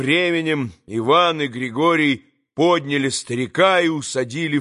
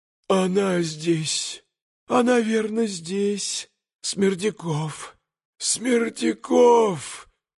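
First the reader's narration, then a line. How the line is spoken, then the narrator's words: Faint wheeze, old man. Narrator (Russian): Чуть слышно хрипел старик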